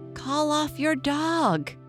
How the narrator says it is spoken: he shouted in terror

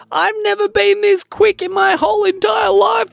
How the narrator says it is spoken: yelled Judah

